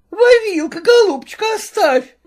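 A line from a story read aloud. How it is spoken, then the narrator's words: Shouting. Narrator (Russian): кричала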